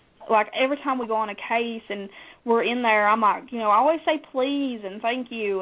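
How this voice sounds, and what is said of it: Southern American accent. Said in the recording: “I sometimes I blame it on the Southern accent”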